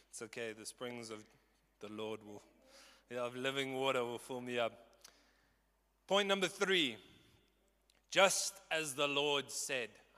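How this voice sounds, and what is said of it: Strained, hoarse voice. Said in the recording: “So much passion that I'm losing my voice.”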